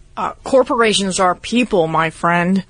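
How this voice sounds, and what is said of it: Imitates another person's voice. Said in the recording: “doing a Mitt Romney voice”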